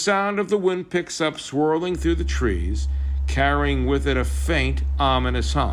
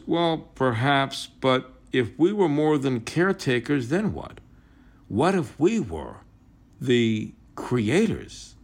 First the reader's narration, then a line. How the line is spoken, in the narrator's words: Adam murmurs